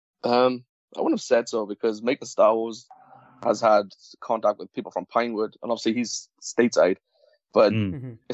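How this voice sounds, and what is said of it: Welsh accent. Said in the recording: “you have a wonderful Welsh accent”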